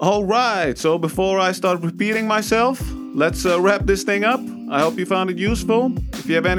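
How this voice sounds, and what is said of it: Usual voice. Nothing is said of it.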